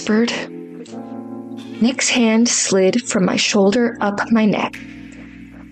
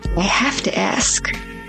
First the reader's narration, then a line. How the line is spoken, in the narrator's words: murmured